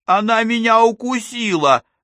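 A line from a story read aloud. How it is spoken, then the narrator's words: Child's wail. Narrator (Russian): взвыл мальчик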